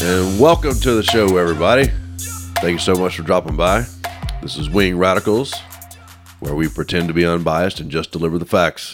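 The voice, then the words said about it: Sick, rough-sounding voice. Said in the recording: “I'm feeling a little bit under the weather this morning. Excuse my voice. ... No, it sounds way worse.”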